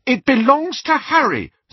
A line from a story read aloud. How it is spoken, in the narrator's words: said Hermione hotly